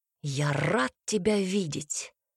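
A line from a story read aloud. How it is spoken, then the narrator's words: Whisper. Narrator (Russian): прошептал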